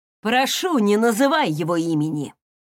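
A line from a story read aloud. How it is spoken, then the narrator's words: Angry. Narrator (Russian): злобно ответил Крис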